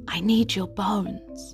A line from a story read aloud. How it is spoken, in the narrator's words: whispered